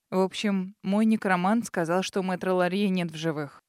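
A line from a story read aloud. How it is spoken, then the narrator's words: Gloomy, frowning. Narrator (Russian): мрачно сообщил мужчина, хмурясь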